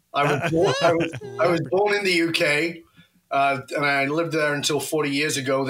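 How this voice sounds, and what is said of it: British accent with Australian hint. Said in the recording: “UK with a hint of Australian”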